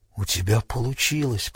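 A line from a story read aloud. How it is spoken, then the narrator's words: Whispered. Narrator (Russian): прошептал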